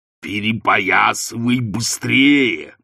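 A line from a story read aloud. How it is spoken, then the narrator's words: Growled. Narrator (Russian): прорычал он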